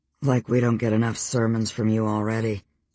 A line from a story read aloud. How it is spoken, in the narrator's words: Storm muttered